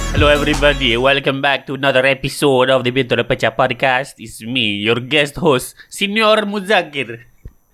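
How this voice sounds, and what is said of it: Exaggerated fake Italian accent. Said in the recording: “pretending to do an offensive Italian accent”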